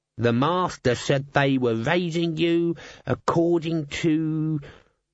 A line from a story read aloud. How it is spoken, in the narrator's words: Albert sneered